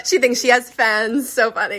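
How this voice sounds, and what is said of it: Speaks in a put-on accent. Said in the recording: “I don't know why I just said that in an accent”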